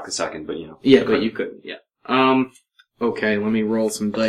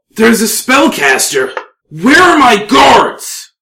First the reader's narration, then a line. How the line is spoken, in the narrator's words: he yells that very loud